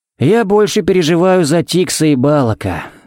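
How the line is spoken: Sighing. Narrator (Russian): вздохнул Харри

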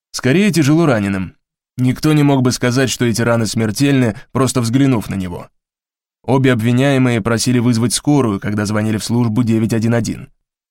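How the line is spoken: Formal official tone. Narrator (Russian): официальным тоном ответствовал Сомс

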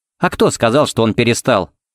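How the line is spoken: Snort. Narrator (Russian): фыркнула Пепси

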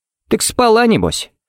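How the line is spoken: Familiar snort. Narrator (Russian): фыркнул Харри, будто они с Эйденом были лучшими приятелями

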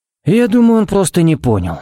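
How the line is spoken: Sigh. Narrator (Russian): вздохнул Харри

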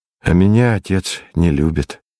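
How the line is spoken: Sad. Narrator (Russian): сказал я грустно

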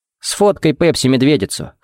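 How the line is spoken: Snorting. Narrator (Russian): хмыкнул Джаред

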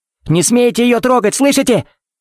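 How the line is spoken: Yelled. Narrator (Russian): Заорал Кевин

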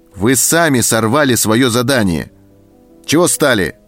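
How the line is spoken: Shout. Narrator (Russian): крикнул он на своих

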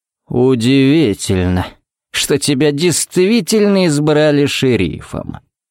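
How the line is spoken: Drawled. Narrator (Russian): протянул он

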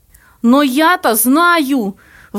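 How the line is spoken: Agitated shout. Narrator (Russian): выкрикнул бледный Плоткин

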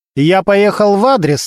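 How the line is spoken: Bossy tone. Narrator (Russian): начальственным тоном сказал он

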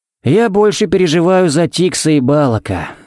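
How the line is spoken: Sighing. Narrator (Russian): вздохнул Харри

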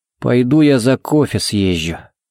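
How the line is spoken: Grumbling mutter. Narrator (Russian): буркнул он

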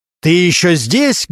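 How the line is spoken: Loud bark. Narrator (Russian): громко рявкнул Регинский

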